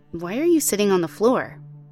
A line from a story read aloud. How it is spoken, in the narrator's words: asked